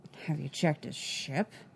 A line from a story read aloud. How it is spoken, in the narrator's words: Fennec muttered into her cup